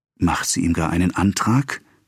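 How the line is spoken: Whisper. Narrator (German): flüsterte Madame Tüvache

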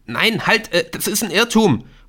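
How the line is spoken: Calls out. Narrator (German): ruft

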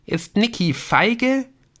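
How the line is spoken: Loud. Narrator (German): sagte sie so laut, dass Dennis auf jeden Fall hören musste

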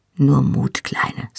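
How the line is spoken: Soft spoken. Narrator (German): sagte er leise

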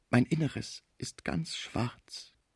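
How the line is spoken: Heartbreaking voice. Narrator (German): sagte der arme Deutsche mit herzzerreißender Stimme

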